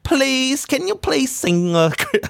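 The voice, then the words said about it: Put-on English accent. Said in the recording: “that's, like, the best little English accent, British accent that I got”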